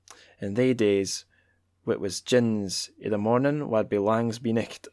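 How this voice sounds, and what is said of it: Put-on Scots accent. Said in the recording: “shall I keep doing the accent? ... my mastery of the Scots is just not as up to par”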